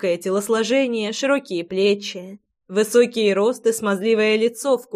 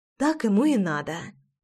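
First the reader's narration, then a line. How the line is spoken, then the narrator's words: Whisper. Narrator (Russian): прошептала я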